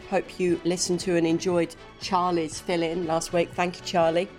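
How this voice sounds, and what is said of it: Voice sounds like a cold. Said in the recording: “You can probably tell from my voice ... I've caught a cold”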